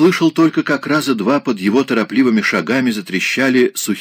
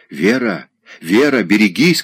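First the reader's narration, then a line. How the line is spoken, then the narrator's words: Desperate shout. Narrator (Russian): кричал он в отчаянии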